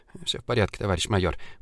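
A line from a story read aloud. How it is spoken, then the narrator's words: Mutter. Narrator (Russian): бормотал он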